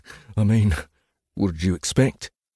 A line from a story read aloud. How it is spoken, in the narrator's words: said another with a chuckle